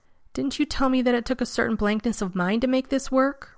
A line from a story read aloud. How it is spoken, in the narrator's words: Rodney snapped